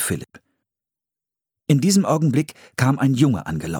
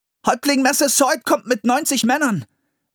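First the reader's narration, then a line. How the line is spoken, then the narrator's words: Shouted. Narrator (German): rief er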